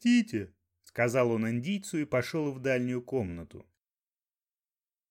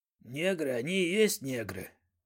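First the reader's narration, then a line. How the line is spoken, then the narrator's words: Grumble. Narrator (Russian): проворчал он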